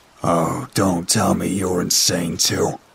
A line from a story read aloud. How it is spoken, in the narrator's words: Kobe groaned